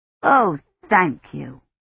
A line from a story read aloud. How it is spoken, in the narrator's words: she said